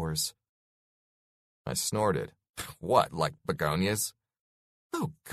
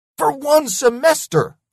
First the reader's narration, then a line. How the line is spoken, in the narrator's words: I yelled